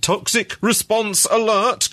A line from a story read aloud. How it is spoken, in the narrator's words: cried the letters again